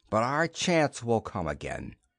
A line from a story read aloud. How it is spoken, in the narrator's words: he told Gamor bitterly